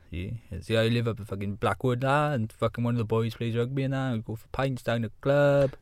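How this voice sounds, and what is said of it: Put-on Welsh accent. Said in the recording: “Proper Welsh one.”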